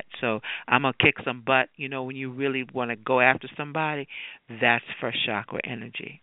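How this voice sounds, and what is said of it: Deep, grounded, soothing voice. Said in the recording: “I'm demonstrating that in my voice. You hear how deep my voice is getting. It's very grounded. It's soothing.”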